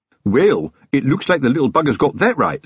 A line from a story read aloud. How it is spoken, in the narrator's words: said Fred cheerfully